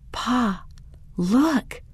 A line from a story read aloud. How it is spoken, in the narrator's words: Daniel whispered